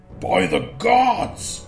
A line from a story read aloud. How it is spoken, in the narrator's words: Nirod exclaimed